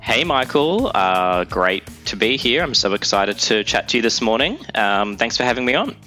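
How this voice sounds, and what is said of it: Australian accent. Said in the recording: “my accent might deceive you, but I'm not actually in Australia”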